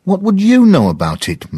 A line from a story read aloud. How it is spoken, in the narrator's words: Maggie said angrily